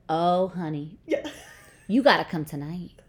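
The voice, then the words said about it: Weak imitation of Southern accent. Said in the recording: “I shouldn't even do the accent because I can't do a good Southern accent.”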